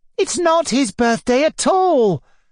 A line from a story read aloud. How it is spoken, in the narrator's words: cried Sashenka